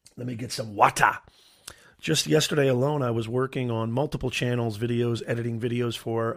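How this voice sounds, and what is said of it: Raspy voice. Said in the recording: “my voice is a little ... my voice might be a little on the raspy side”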